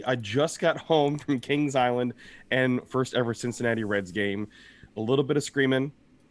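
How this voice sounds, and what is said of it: Raspy, strained voice. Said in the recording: “My voice is a little raspy ... A lot of screaming by the sounds of it ... dealing with some allergies as well”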